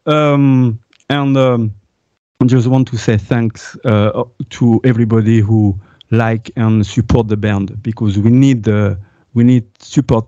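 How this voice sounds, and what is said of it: French-accented English. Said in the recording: “Sorry about my accent ... You know, I'm French.”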